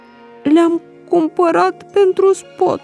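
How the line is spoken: Quiet, close to tears. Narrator (Romanian): Bobby s-a înroșit și era gata să plângă iar, dar prin ceața din ochii lui a spus încet

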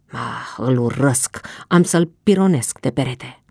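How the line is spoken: Muttering. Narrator (Romanian): el mormăia

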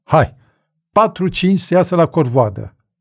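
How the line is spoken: Shouted. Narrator (Romanian): milițianca striga

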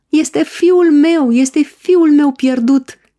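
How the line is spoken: Shout. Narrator (Romanian): a strigat el

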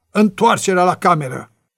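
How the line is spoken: Shouting. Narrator (Romanian): a strigat

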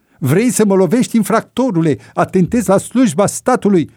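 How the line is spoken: Furious cursing scream. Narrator (Romanian): l-a înfuriat și mai rău pe polițist, înjurându-l și țipând

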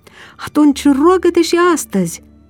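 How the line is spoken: Sighing. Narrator (Romanian): suspină Elisabeta

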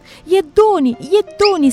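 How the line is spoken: Shouting. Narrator (Romanian): strigă Ana

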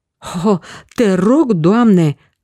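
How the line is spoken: Exclaiming. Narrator (Romanian): a exclamat atunci Petru

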